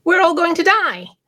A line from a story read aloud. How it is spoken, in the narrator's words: at the top of their lungs